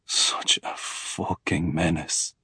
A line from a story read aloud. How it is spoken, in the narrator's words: he mutters